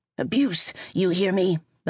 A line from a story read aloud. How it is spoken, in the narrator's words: The Hydra roared